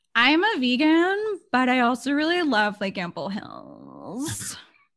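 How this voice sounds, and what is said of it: Valley Girl accent. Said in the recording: “I feel like you did like a Valley Girl accent to describe someone from Brooklyn.”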